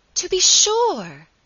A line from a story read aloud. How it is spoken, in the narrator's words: cried, with a vehemence that startled her cousin